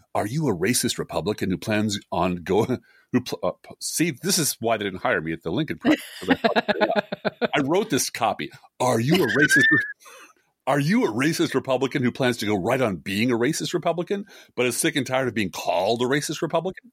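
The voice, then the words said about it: Movie-trailer voiceover voice. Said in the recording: “I'll do it my best voiceover voice... In a world... So I'll do that voice”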